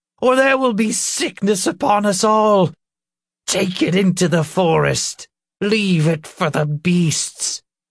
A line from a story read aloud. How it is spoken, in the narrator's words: the old woman yelled